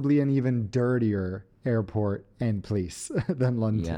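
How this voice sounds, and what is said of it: Usual voice. Nothing is said of it.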